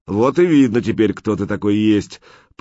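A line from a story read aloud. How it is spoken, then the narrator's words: Booming voice from above. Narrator (Russian): прогремел откуда-то сверху голос всемогущего Прохора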